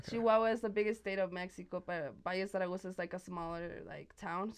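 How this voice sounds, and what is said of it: Spanish accent. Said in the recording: “with the Spanish accent”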